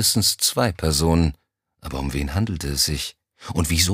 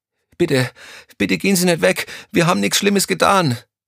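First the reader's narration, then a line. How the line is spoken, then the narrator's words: Pleading voice. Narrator (German): flehte nun wieder die erste der beiden Stimmen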